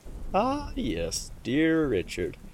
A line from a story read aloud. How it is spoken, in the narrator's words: he chuckled darkly